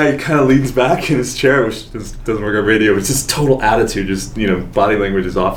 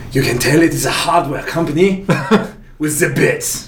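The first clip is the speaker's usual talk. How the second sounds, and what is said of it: Impression of a French man. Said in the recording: “he was French. So I'm going to try to do an impression here.”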